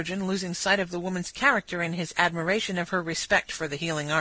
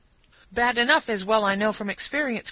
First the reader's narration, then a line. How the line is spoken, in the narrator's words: cried Katie in triumph